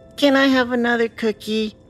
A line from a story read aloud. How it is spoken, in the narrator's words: She sighed, smiling